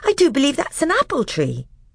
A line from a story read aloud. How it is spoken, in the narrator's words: exclaimed Lucy